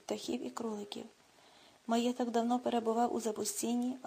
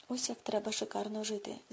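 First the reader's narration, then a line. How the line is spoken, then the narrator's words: Delighted whisper. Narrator (Ukrainian): захоплено прошепотів Клод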